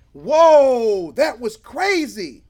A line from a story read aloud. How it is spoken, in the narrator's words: John shouted